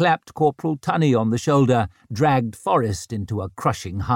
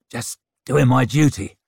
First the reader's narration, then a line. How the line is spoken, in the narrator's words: growled Forrest, his cheeks colouring above his overgrown beard